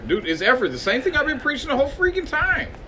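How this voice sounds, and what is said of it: Yelling, loud raised voice. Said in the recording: “You keep yelling that. Like, just because you keep saying it louder”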